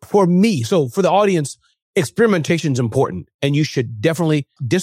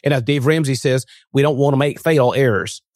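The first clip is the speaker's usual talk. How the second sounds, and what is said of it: Attempted Southern US accent. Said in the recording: “I was trying to have a Southern accent. I try.”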